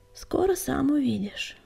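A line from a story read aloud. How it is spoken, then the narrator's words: Sighing. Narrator (Russian): вздохнул Крутобок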